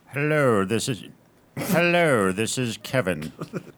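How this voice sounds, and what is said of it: Posh British character voice, Alan Rickman-like. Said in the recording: “like Kevin had elocution lessons ... You sounded British ... you've channeled a bit more Alan Rickman”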